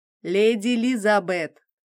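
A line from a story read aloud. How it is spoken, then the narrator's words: Accented but clear. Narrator (Russian): Мое имя звучало с акцентом, но достаточно четко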